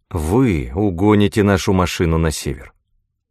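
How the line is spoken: Even tone. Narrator (Russian): ровным тоном продолжала герцогиня

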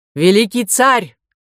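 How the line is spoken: Shouting over the surf. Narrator (Russian): крикнул Тесей, перекрывая шум прибоя

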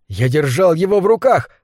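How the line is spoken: Exclaimed. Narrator (Russian): воскликнул он

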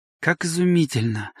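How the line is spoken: Mutter. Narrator (Russian): пробормотал Дьюэлл

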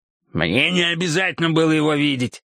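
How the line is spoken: Growled, matching tone. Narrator (Russian): зарычал ему в тон Эрот

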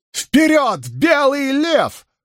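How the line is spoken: Shouted battle cry. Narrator (Russian): вновь прокричала Илэйн боевой клич Андора

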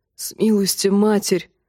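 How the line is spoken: Breathless. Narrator (Russian): выдохнул Тимиан

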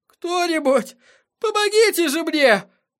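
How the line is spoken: Breathless gasp. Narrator (Russian): выдохнул певец

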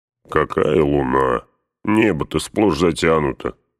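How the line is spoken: Grumbling. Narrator (Russian): проворчал Гимли

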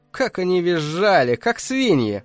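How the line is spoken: Loud female laughter. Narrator (Russian): Она расхохоталась

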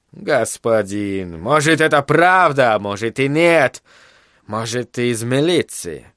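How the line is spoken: Mocking tone. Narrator (Russian): главный Гаруда продолжал тем же насмешливым тоном

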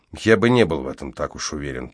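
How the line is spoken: Muttered. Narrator (Russian): пробормотал я

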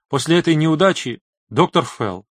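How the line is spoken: Timid. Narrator (Russian): робко проговорила Барбара

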